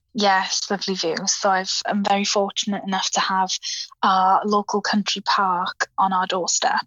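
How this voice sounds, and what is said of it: Welsh accent. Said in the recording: “I noticed a lovely accent there. ... So I'm in South Wales.”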